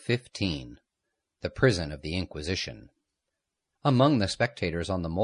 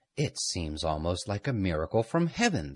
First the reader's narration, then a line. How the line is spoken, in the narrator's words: the priest exclaimed